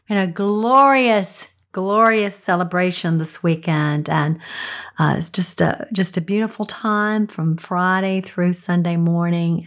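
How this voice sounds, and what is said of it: Slightly scratchy voice. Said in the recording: “my voice sounds a little scratchy today”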